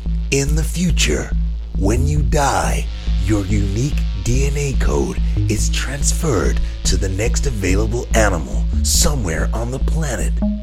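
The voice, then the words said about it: Dramatic movie trailer narrator voice. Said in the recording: “should I do it in the trailer voice? ... let's do it in the trailer voice”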